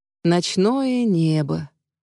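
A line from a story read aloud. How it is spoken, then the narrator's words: Mumbling into ear. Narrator (Russian): бормочет мне в ухо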